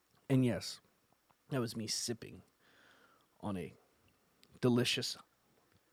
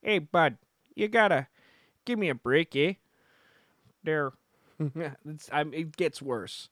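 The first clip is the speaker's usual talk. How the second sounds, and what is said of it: Put-on Minnesotan or Chicago accent. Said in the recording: “He's kind of sounding a little more Minnesotan ... At moments, I almost sound like I'm from Chicago”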